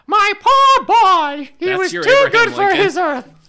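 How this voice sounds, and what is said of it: High-pitched imitated voice. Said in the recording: “he kind of has a high voice.”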